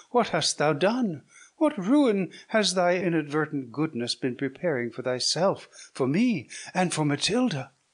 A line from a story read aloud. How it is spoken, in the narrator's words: cried Isabella